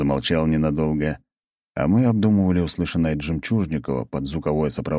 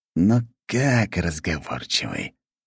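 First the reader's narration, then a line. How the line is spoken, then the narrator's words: Hissing uncle. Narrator (Russian): прошипел дядя Игнат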